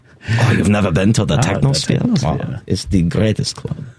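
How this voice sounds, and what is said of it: Mock German, sounding Austrian. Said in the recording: “That's not a German accent. ... That's a little more Austrian, but it's okay.”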